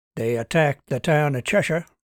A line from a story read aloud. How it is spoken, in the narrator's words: Kutch said flatly